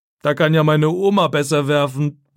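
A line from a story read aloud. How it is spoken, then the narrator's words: Mocking. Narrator (German): sagt er spöttisch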